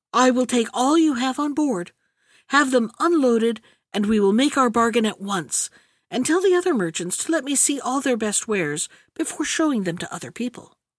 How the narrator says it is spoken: the princess, who was very partial to them, exclaimed

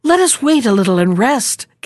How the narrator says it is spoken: gasped she

